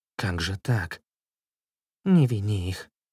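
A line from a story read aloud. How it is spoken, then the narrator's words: Whisper. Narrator (Russian): прошептал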